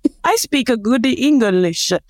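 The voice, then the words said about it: Terrible put-on Mario Brothers accent. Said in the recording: “That's a terrible accent. ... Is it Mario Brothers? ... it's like the spoof of Mario Brothers”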